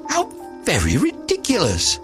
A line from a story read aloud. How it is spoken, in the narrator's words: the little lizard, who was something of a cynic, laughed outright